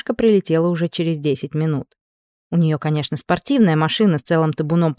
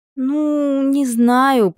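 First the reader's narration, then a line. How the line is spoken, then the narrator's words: Drawn-out hesitant drawl. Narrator (Russian): протянула подруга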